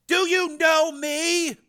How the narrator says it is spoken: Frank yelled in his brother's ear

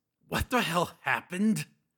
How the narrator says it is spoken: managed to croak

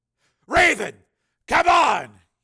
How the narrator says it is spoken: shouted

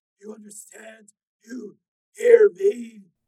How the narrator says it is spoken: Esteban cried out in agony

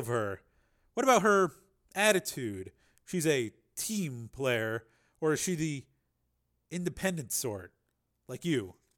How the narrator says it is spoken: Devin chuckled

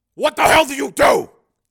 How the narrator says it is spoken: He shouted

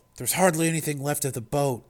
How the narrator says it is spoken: Tony said, his voice gentle

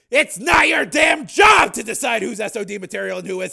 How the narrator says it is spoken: Hardesty snapped

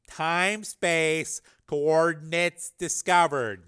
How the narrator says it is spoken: Cook said slowly and deliberately, like he was teasing someone stupid

